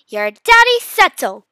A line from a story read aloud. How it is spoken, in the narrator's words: Mom shouted angrily